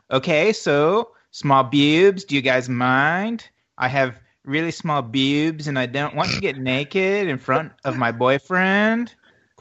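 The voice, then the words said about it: Put-on French accent. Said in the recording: “what region accent is that you chose there? ... French.”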